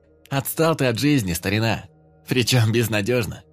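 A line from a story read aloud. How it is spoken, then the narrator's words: Wry snort. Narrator (Russian): хмыкнул Фома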